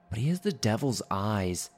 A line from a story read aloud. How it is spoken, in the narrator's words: pleaded my grandmother